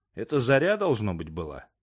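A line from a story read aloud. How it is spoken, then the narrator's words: Calm, while chewing. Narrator (Russian): ответил спокойно Ремер, отрывая зубами мясо от куска зажаренной птицы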